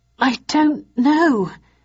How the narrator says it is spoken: I stammered in reply

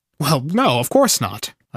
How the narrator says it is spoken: I spluttered

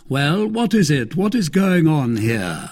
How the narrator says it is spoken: said he, in a jeering voice

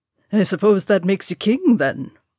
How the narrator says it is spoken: laughed

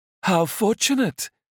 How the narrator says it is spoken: exclaimed

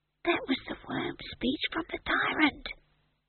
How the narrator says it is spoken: whispered Howell

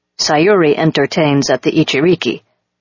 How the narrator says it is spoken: He grunted like a pig and then said

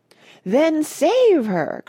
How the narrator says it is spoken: cried Mrs

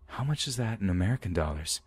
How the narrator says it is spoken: I whispered

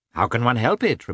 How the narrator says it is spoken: replied

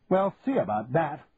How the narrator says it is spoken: his voice did carry

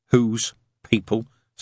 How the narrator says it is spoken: said Aziraphale coldly

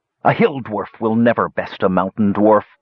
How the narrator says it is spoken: Pitrick said, his tone threatening, challenging

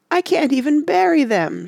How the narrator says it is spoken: Ramona cried and carried on so

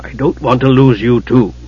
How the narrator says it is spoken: he added in a husky voice

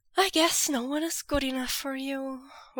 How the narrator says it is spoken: Wei Ying had sighed

